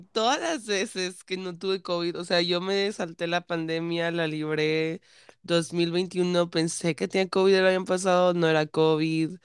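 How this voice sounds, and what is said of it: Hoarse, congested, childlike voice. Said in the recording (Spanish): “anda un poquito ronca ... se me hace la voz de niño, como de un niño mormado de 12 años”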